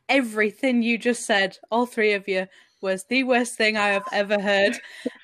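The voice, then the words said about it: Yorkshire accent. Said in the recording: “You'll hear the Yorkshire accent.”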